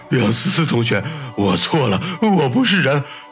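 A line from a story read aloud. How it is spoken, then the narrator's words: Sobbing repentance. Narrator (Chinese): 高林痛哭流涕的忏悔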